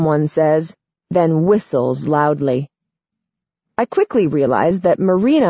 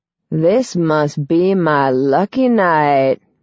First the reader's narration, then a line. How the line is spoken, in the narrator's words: the guy drawls